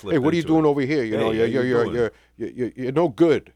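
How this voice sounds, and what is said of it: Put-on New York accent. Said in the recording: “born and raised in New York City ... You don't have that accent. ... When I have a few beers, I usually, you know, like,”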